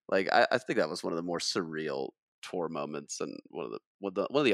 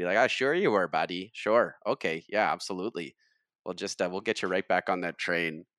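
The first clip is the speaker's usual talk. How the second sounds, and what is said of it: Convincing put-on Canadian accent. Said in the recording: “That was a pretty impressive Canadian accent too”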